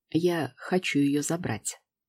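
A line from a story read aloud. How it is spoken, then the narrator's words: Confident, hoarse voice. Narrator (Russian): уверенно произносит он хриплым голосом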